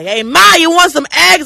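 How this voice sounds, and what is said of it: Loud put-on New York accent. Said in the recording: “Any Yankee accent is just grating ... I don't know if he was from the Brooklyn or Bronx ... Why are you yelling?”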